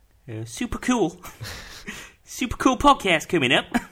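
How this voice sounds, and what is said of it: Put-on Dutch accent, fairly good. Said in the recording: “Do you like my accent? ... The Dutch accent. ... It's pretty good, the Dutch accent, actually. ... That's my Dutch accent.”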